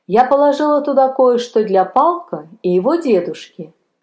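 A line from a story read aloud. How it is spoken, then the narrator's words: Plain. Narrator (Russian): сказала она священнику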